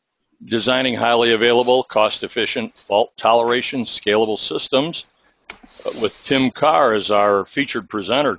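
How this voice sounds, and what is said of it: Polished radio announcer voice. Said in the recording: “such a great radio voice”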